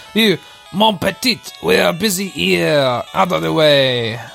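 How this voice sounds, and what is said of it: Put-on French accent. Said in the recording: “it's a French chef. Are we gonna do accents”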